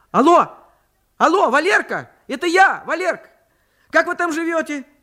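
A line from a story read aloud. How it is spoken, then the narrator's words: Very loud shouting. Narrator (Russian): Ее голос звучал на всю почту, словно она говорила не по телефону, а натурально кричала, чтобы было слышно в Муроме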